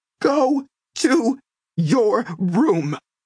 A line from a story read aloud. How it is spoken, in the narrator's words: she screamed